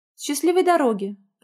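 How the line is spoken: Faltering babble. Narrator (Russian): пролепетала женщина

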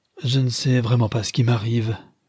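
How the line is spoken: Weak murmuring voice. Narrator (French): murmurait-elle d'une voix affaiblie

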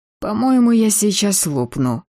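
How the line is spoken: Moaning. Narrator (Russian): простонала я

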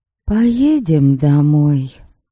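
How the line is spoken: Soft. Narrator (Russian): мягко проговорила я

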